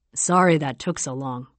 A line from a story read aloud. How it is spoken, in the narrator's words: he says